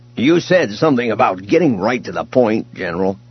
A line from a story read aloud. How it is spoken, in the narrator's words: Booster said irritably